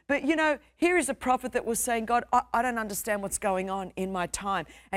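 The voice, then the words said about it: Strong Australian accent. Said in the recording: “I'm saying it with a strong Australian accent”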